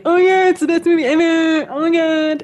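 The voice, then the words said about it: Mocking impression of gushing fans. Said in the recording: “Is that what they sound like? ... your impression”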